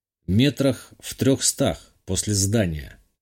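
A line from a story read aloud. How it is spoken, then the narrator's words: Plain. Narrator (Russian): ответил и добавил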